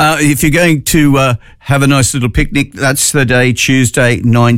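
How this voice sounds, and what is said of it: Usual voice. Nothing is said of it.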